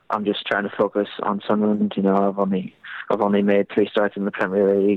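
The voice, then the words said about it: English accent. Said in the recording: “You can tell by your accent, you've come of age in England.”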